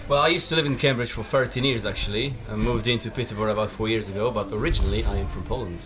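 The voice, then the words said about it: Polish-accented English. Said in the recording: “It's a sexy accent.”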